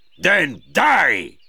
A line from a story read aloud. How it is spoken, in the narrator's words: shouted Magua